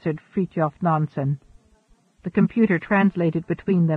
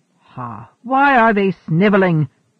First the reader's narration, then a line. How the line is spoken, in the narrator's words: roared Peter Freuchen